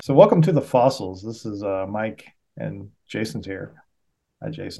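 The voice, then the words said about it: Public radio announcer voice. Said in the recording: “I'm doing the NPR voice again.”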